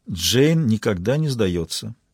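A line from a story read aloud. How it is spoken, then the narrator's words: Quiet. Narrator (Russian): тихо произнесла Маура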